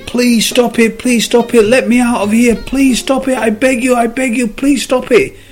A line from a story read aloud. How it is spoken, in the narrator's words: The cop started screaming